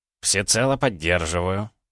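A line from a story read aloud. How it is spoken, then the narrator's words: Thoughtful. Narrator (Russian): задумчиво произнес Карамзин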